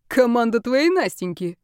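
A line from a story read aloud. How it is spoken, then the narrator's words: Snorting. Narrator (Russian): хмыкнул Шейк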